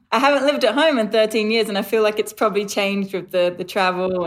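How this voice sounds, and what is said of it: English accent that sounds Australian. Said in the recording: “Your accent, is it New Zealand or is it Australia? ... I thought you were Aussie.”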